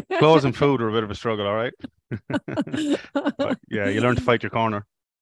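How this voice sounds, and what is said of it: Very strong non-Australian accent. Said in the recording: “you're obviously not from Australia ... you still obviously got a very strong accent”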